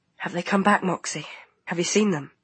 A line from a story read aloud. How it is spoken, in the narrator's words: whispered